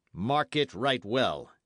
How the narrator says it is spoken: he said, harshly

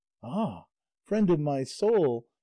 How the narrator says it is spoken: instantly exclaimed the other shepherdess

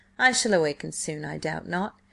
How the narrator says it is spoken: he chuckled a little

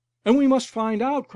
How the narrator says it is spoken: cried another

